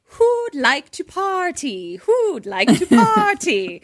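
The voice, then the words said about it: Put-on British accent. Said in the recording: “with a British accent. He's like”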